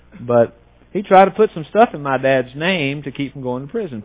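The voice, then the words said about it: Rural country dialect. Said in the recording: “Sounds pretty hicky, doesn't it? ... It is pretty hicky. We grew up in the country, if you hadn't picked up on my dialect by now.”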